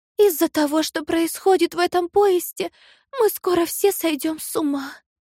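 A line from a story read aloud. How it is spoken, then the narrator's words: Sigh. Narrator (Russian): вздохнула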